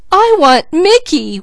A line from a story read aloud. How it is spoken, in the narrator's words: wailed Peaches